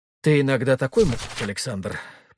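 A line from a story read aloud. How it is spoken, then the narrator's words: With deep sigh. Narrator (Russian): проговорила Ангелина, глубоко вздохнув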